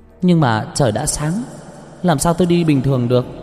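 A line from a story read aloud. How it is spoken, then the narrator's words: Loud laughing. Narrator (Vietnamese): Cờ Nơ cười lớn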